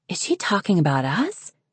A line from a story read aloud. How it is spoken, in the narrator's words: Wren whispered to Snowfall